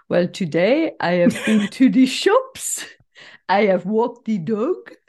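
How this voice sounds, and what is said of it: English spoken with mock French accent. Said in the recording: “replying in English with a French accent ... I would like to apologize to any of our French listeners for the shocking display”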